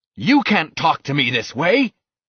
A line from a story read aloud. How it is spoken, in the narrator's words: shouted the captain